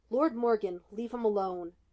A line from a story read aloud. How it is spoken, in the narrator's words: growled, head lowered